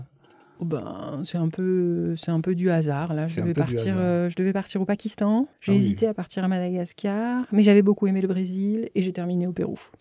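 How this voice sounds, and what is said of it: Non-Québécois French accent. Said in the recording (French): “vous n'êtes pas québécoise d'origine, on l'entend, votre accent, même moi, j'arrive à le, à le distinguer”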